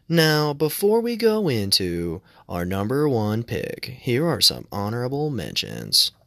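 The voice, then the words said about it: Imitates a countdown-video narrator voice. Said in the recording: “in a Watch Mojo voice.”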